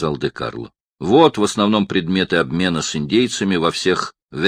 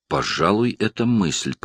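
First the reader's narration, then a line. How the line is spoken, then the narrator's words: Muttered. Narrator (Russian): пробормотал он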